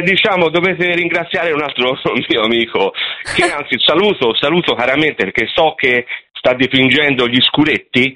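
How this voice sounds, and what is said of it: Pleasant regional Italian accent. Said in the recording (Italian): “che bellissimo accento”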